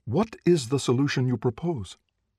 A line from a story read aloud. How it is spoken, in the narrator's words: she said eagerly